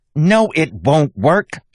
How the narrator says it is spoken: she snapped

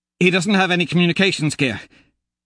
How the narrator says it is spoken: Victor says breathlessly

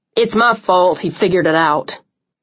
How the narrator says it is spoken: Cole said sharply

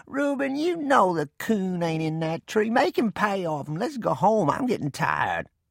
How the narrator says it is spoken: In a whining voice, Rainey said

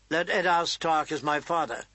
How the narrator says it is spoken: John admitted stiffly

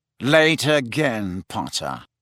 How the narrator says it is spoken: said Snape coldly

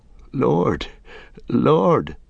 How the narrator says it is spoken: began Merry brokenly

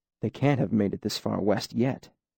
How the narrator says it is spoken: he said softly

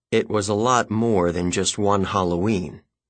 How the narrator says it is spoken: he grumbled

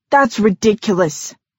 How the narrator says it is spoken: she spat

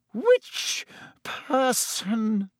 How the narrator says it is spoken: she said, her voice shaking

